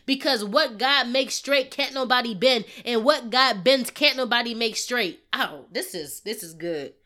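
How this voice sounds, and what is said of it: Yelling, loud preaching voice. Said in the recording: “if I'm yelling”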